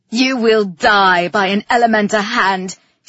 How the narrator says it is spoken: she snarled

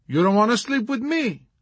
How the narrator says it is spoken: she exclaimed with surprise

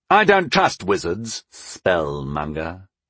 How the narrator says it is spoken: he said, turning my adopted title into a sneer

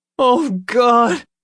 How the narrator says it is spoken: he cried

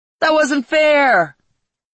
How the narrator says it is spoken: shouted

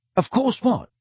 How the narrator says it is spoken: said Ron rather impatiently

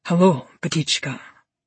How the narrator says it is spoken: he murmurs

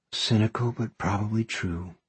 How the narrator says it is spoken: Izzy says with a sigh

